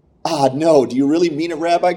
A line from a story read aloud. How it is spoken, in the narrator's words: cried the man